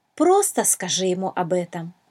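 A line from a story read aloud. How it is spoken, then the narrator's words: Plain. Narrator (Russian): ответила драгоценная жемчужина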